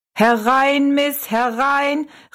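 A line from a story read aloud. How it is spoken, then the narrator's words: Calling out. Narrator (German): rief er Rosalie zu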